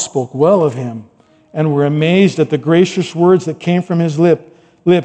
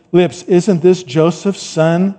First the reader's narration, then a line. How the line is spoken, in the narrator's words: asked